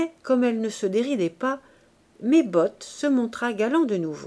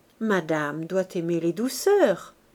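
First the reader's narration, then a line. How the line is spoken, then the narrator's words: Murmured. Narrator (French): murmura-t-il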